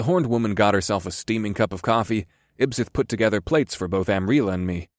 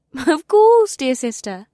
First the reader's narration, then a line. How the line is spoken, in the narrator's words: Ibsith replied in a sweet tone